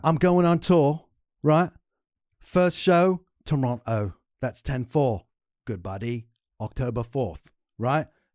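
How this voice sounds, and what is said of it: British accent. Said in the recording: “But you have a British accent.”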